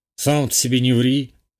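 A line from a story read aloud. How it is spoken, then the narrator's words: Snorting. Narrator (Russian): хмыкнул Андрюха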